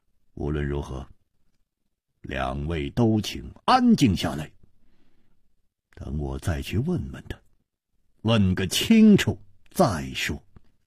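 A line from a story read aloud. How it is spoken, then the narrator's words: Deep, after a silence. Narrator (Chinese): 楚留香默然半晌，沉声说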